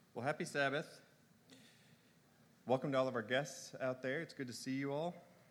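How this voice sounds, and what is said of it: Congested, strained sinus voice. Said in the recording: “You have to forgive my voice. I've been dealing with sinus issues all week.”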